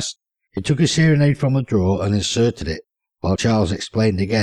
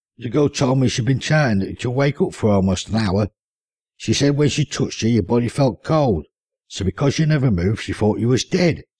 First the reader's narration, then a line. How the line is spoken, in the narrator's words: said Elvin